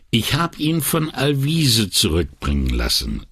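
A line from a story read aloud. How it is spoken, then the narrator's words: Plain. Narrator (German): sagte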